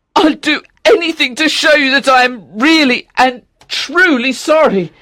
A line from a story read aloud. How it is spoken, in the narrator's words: cried Octavian